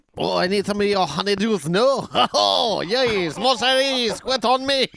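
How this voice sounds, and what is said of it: Put-on French accent. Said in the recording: “working on a French accent”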